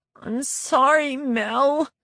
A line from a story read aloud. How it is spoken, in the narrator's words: Kim said, her voice cracking